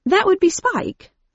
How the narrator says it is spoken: replied brightly

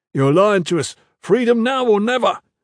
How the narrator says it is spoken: the man shouted back

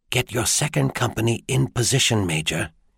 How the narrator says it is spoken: he whispered to Niklos

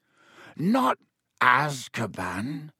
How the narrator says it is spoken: croaked Hagrid

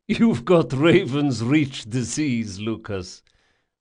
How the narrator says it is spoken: the Don laughed

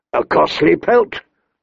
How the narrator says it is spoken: Robert grumbled

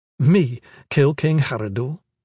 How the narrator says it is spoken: She laughed

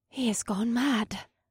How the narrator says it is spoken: Asta whispered behind me

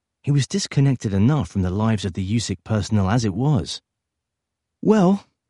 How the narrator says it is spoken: he sighed

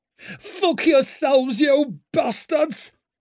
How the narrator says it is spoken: started screaming insults

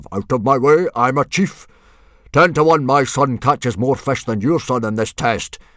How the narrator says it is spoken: boomed Stoic

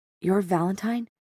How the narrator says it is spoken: she whispered

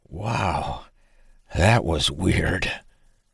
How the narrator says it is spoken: writhed and gasped for air before finally managing to say

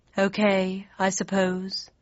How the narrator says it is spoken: sighed

